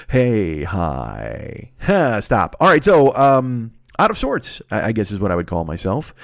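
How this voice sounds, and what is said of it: Sick, congested, sore-throated voice. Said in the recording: “Listen to this voice. Do you hear this? ... I'd been sick for a while ... I was blowing my nose all the goddamn time ... had a throat thing, like a bad throat, sore throat”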